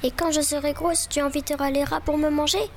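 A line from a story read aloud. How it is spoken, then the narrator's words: Tearful cry. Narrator (French): cria-t-elle les yeux pleins de larmes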